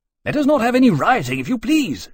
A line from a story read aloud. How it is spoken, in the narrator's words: Keynes said almost angrily